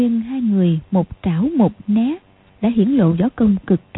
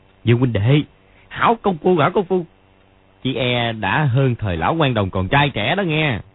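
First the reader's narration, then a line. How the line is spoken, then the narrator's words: Old man laughing loudly. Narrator (Vietnamese): lão ngẩng mặt cười to nói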